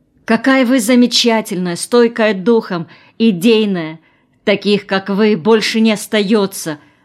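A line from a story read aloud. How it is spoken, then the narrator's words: Exclaiming. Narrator (Russian): воскликнула она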